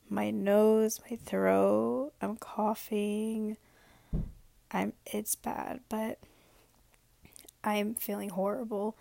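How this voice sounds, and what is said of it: Hoarse, fading voice. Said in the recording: “I am losing my voice. I've had it lost for maybe only a day.”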